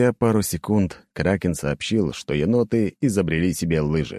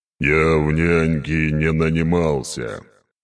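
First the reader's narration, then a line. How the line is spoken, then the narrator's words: Gruff mutter. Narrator (Russian): буркнул он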